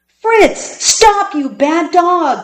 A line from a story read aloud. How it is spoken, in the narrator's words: cried Alan